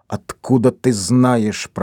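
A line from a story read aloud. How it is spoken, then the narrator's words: Furious hiss. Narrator (Russian): прошипел он, глядя с яростью на Стеффи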